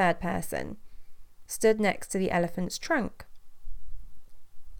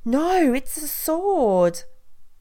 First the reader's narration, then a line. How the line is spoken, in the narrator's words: The second person stood next to one of the elephant's tusks and put his hand to the hard, shiny spear, exclaiming with fear